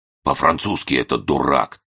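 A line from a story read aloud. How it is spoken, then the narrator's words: Wheezing. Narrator (Russian): прохрипел Еропкин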